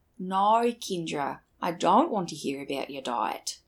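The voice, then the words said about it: Put-on Australian accent. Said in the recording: “I can kind of do an Australian accent. So I'm going to say a sentence in my accent.”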